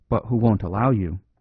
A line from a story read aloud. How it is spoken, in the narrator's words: put in the priest in a low voice